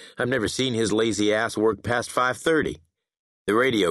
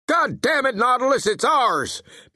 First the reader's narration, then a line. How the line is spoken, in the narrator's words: Pace Logan barked